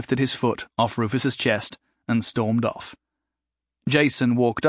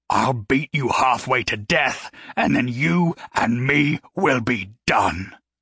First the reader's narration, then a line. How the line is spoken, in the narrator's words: Gary growled